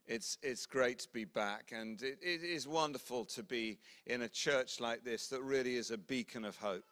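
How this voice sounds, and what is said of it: English accent. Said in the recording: “She fell in love with an Englishman, moved south, hence my accent”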